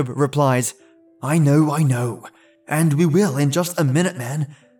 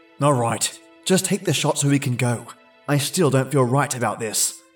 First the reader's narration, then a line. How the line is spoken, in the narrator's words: Kenny said